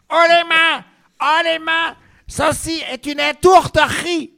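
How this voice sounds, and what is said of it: Put-on Belgian accent. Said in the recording (French): “deux blondes belges ... ne vous moquez pas de mon accent”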